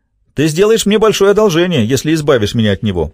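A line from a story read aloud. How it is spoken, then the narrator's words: Shouting. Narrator (Russian): выкрикнул Лендри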